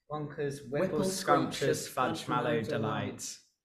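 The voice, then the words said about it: Northern English accent. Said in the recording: “in that accent. In that accent. ... That's a good accent to have. Northern”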